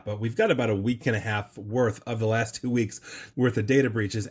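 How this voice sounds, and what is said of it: Voice sounds sick. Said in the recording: “I don't know if you can hear in my voice, but I was actually sick”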